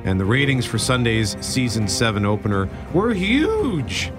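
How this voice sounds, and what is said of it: Voice cracks like an adolescent. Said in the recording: “my voice cracked ... my voice cracks like an adolescent because I'm so excited”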